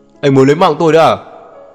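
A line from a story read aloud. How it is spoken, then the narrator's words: Pained shout. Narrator (Vietnamese): Anh ta đau đớn kêu mãi, quát lên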